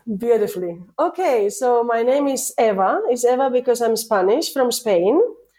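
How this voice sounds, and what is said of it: Spanish accent, voice affected by cold. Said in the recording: “I have a cold. So now with my Spanish accent and my cold”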